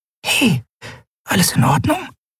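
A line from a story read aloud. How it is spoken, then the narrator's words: Whispering. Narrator (German): flüsterte sie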